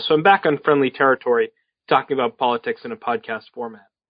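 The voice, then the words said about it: Clear, polished radio voice. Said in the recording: “radio voice ... is so clear”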